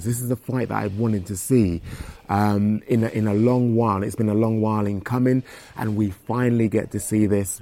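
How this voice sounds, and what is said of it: Excited voice. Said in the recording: “you can hear the excitement in my voice. ... I can hear it.”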